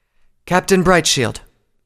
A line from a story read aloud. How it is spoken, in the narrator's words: she called out